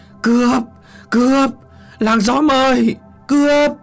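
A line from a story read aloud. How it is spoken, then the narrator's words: Hoarse, indignant old man screaming. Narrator (Vietnamese): Lão Trí uất ức gào lên từng tiếng khản đặc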